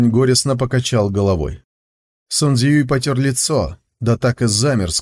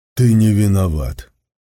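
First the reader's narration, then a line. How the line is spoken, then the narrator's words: Muffled, hollow voice. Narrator (Russian): глухо сказал он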